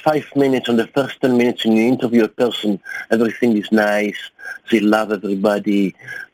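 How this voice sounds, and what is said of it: Speaks with an accent. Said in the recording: “with my accent”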